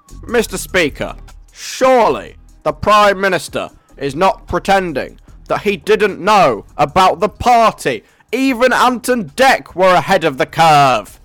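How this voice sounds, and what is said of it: Imitates a North London politician's voice. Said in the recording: “I'm gonna get into character. I'm gonna channel a lawyer from North London who's leader of the Labour Party ... my impression, which I think is actually quite good ... Is that just me doing a weird voice, or does that sound a little bit like Keir Starmer?”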